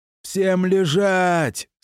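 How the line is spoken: Throat-tearing yell. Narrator (Russian): срывая глотку, заорал я

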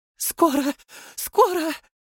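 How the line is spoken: Ecstatic moan. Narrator (Russian): простонала брюнетка, в экстазе

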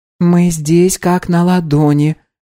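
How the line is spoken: Soft woman's reminder. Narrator (Russian): мягко напомнила леди

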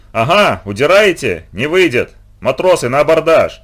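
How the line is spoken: Wild yell. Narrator (Russian): Завопил Нельсон

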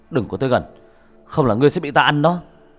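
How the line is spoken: Shouting. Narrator (Vietnamese): Bác cổ quát lên

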